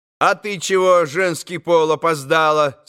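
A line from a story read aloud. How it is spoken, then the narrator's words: Stern question. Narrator (Russian): спросил грозно Красоткин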